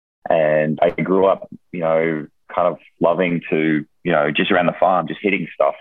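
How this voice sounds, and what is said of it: Australian accent. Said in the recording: “I'm originally from Australia, if you can't hear it in my accent already”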